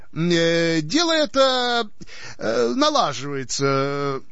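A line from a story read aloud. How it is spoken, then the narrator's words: Hesitant mumble. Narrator (Russian): нерешительно промямлил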